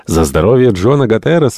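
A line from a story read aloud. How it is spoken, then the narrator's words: Exclaiming. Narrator (Russian): воскликнул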